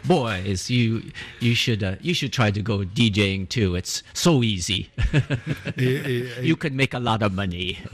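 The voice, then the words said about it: Put-on Italian accent. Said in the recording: “he has an Italian accent,”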